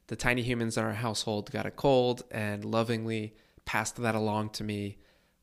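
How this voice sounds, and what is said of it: Congested, stuffy voice. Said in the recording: “You might be able to hear it in my voice, but I'm a little bit congested. ... I just have a little bit of lingering congestion”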